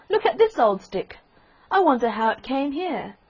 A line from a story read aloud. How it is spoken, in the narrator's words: cried one of the boys